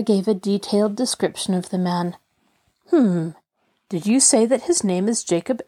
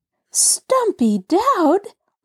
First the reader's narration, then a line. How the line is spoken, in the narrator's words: Laura exclaimed in horror